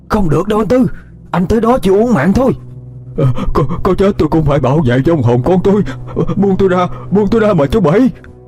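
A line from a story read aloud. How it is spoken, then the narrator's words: Near scream, old man. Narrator (Vietnamese): Ông Bảy nói như thét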